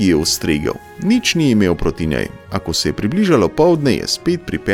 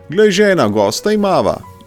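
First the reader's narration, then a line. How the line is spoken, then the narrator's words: Joyful man calling. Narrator (Slovenian): je zaklical mož ves vesel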